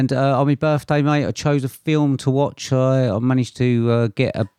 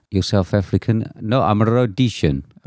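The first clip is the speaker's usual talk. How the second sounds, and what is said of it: Put-on South African accent. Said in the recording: “Is that a good impression there? ... Yes.”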